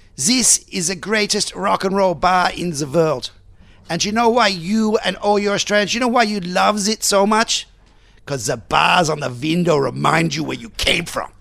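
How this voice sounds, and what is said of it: Put-on Norwegian accent. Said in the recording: “I'm not very good with my Norwegian yeah. accent,”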